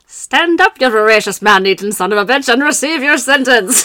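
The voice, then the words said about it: Put-on old-timey accent, sounds Irish. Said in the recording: “Are you going to do the accent? ... I'm going to try. ... It sounds Irish. ... It's like an old country crock accent. ... It's accidentally Irish.”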